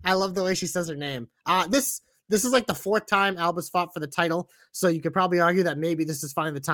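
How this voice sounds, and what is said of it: Usual voice. Nothing is said of it.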